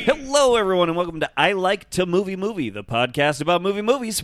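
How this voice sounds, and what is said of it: Heavy radio announcer voice. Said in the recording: “radio voice... You really went heavy.”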